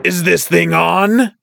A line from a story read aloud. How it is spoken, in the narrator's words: He guffawed loudly